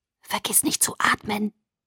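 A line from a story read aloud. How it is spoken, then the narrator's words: Whisper. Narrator (German): flüsterte ich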